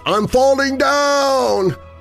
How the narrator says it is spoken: A voice called out

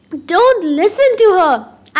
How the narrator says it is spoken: Annabeth shouted somewhere in the statuary

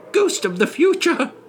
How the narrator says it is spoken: he exclaimed

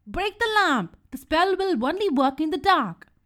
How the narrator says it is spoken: Bibo screamed

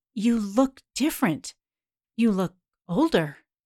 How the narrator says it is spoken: stammers

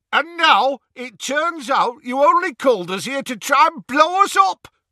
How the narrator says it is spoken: roared the Death Eater

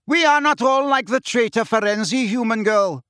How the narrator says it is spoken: shouted the grey centaur

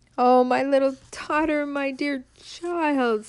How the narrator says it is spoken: sobbed Midas, wringing his hands

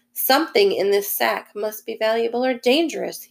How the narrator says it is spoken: he chuckled again

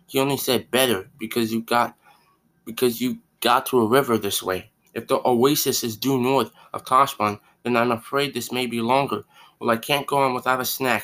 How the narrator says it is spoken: said Bree

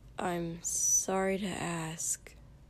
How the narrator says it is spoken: Shoto said with a sigh

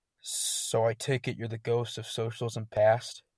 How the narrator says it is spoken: in disbelief, grumbled

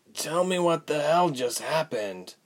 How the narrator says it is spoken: croaked

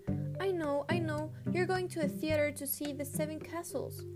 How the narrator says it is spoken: she cried, adding resolutely

